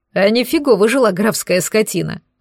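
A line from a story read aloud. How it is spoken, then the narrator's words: Laughing. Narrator (Russian): хохотнул Лекс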